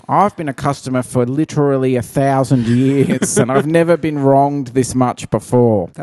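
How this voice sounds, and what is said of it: Impersonates an online commenter. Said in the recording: “That was a good impersonation of someone on the Facebook page.”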